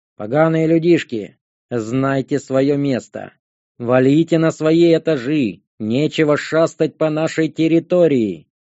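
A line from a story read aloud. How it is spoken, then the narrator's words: Orangutan's growl. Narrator (Russian): Прорычал на нас массивный орангутанг по имени Андбонге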